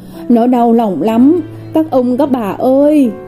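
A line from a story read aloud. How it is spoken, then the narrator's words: Whimpering old woman. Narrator (Vietnamese): bà mếu máo và nói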